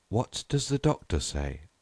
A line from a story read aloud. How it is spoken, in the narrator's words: asked Mr